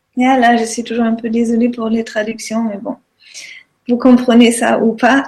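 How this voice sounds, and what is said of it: Speaks with an accent. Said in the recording (French): “sois tranquille pour ton accent ... tout le monde adore ton accent”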